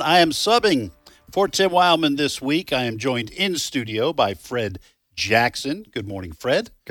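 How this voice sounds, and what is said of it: Northeastern Massachusetts accent. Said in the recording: “you're on this northeastern Massachusetts accent”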